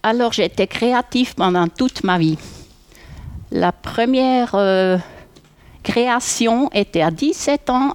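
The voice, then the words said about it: Swiss German accent in French. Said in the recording (French): “votre accent suisse-allemand”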